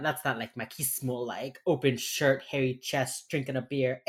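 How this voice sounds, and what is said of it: Miami accent. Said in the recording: “I'm gonna have my fucking Miami accent this whole episode... it never comes out except when I'm drunk and when I'm very emotional and when I'm talking about Hispanic things... the fucking like triforce of my fucking Miami nonsense”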